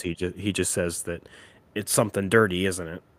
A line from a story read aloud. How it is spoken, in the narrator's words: The laughing cop